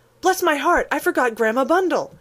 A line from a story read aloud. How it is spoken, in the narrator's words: Lorry cried out